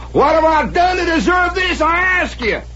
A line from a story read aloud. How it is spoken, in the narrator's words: stomped around out there amid his stone angels, shaking his fist at the heavens, hollering